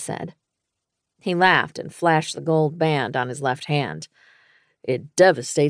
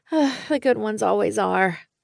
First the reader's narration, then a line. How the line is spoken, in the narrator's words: I sighed